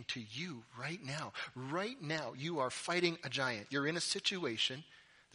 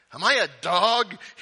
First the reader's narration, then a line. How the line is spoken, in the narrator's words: He roars at David